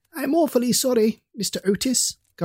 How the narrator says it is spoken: gasped the boy

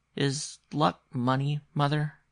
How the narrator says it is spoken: he asked rather timidly

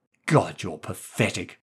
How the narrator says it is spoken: she hissed

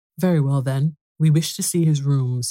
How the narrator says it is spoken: said the lawyer

